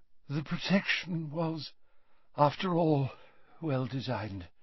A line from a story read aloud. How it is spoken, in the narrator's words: said Dumbledore faintly